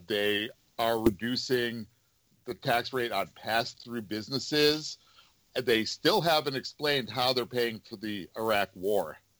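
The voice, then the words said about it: New York area accent. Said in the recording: “my accent, but I grew up in the New York area”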